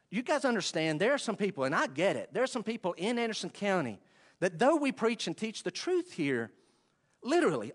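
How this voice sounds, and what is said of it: Western North Carolina accent. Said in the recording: “my accent, my Western North Carolina accent, my mannerisms, my voice, my mouth contortions”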